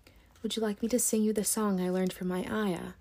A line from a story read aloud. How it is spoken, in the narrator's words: Mary whispered to Colin